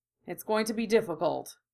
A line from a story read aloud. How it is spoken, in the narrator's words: murmured, his voice leaving no room for doubt